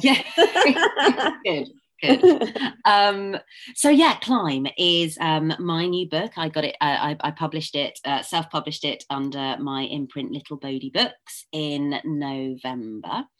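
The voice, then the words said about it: Slightly husky, hoarse voice. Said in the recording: “I've got a touch of laryngitis, although I'm sounding a lot better ... I quite like husky voices anyway.”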